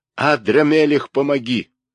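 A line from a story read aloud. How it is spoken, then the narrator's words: Furious loud exclamation. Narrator (Russian): Чертополох в бешенстве громко воскликнул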